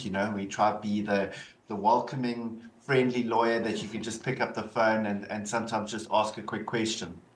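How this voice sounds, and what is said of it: South African accent. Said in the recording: “Obviously you can hear the South African accent.”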